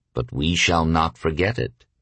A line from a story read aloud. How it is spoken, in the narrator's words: said Rockefeller evenly